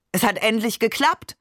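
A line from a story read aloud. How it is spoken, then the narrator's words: Calling out. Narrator (German): rief Barbe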